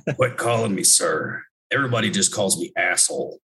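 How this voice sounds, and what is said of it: Imitates another person's voice. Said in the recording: “I'm going to try to do an impersonation.”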